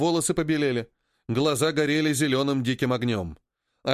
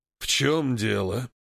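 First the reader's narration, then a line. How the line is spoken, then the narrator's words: Hoarse reply. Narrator (Russian): хрипло ответил тому Хэнк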